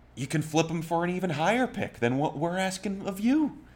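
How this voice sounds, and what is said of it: Weak Brandon Beane impression. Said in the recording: “That's me talking as Brandon Bean ... a very good Brandon Bean impression ... I wasn't trying to be the Southern drawl.”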